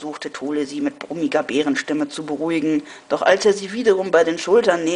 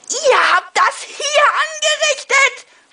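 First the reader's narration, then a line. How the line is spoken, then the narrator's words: Shouting woman. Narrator (German): schrie sie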